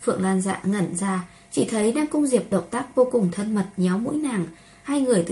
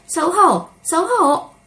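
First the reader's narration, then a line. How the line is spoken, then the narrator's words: Sudden parrot squawk. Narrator (Vietnamese): Ngân ca trong phòng khách bỗng nhiên kêu lên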